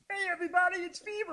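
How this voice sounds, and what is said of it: Muppet-like character voice. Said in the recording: “it's not a bad impression.”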